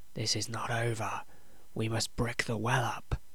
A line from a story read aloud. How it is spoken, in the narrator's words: Estes whispered into Ezra's ear